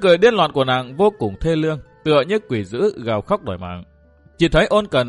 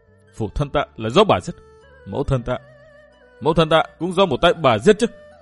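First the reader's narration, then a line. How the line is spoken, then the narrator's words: Crazed laughing. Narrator (Vietnamese): chợt bật cười điên loạn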